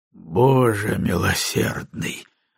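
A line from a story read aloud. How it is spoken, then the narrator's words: Breathless exhale. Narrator (Russian): выдохнул Маккензи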